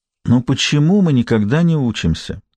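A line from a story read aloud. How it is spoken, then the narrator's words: Sighing to herself. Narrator (Russian): вздохнула про себя Клара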